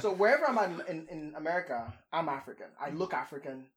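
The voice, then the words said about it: Nigerian accent. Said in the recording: “you have an accent ... third world accent”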